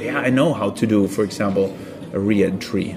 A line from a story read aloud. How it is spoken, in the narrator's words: I said